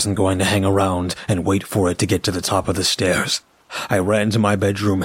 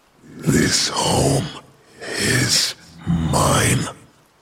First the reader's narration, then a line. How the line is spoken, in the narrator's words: It took a deep, raspy breath and said